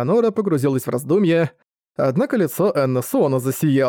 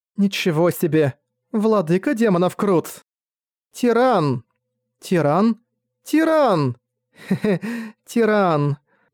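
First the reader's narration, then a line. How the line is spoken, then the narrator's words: Laughing together, repeating. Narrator (Russian): Зессия с Энна Суона вместе смеялись, повторяя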